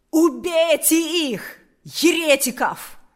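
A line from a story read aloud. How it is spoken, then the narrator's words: Shout. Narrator (Russian): крикнул Карп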